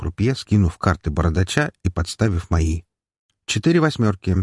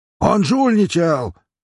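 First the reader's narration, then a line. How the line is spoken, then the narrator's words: Big man yelling. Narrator (Russian): заорал здоровяк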